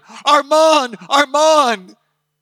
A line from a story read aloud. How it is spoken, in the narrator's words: He shouted